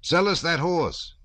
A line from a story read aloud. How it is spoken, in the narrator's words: Denisov called out to the Cossacks